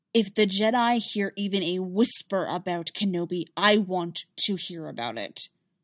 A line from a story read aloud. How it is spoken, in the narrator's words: Dooku snapped